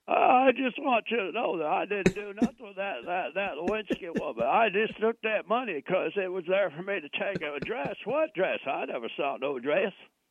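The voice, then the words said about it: Bill Clinton impression. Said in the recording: “you do a pretty good impersonation of me ... I have to let that lazy bottom lip get in there ... mocking Bill Clinton”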